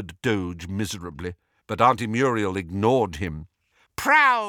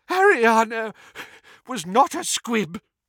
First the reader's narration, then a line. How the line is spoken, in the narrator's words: wheezed Doge